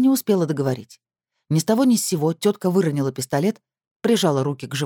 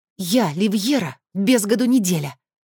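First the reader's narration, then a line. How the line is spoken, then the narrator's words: Hissed. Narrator (Russian): прошипела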